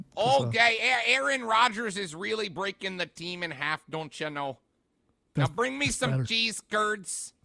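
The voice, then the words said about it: Put-on Green Bay Wisconsin accent. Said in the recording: “Was that your Green Bay accent? ... I just evolved into the super fans from SNL.”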